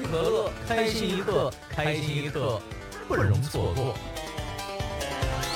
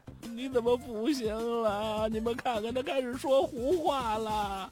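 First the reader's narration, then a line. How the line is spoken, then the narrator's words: Crying. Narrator (Chinese): 妻子一听，马上哭了起来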